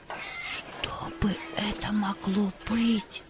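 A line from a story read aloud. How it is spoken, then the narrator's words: Quiet question. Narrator (Russian): спросила она тихим голосом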